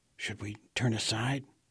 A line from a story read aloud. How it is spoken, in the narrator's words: I whispered